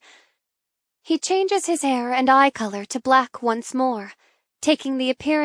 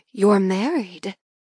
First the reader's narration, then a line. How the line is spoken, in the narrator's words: She gasps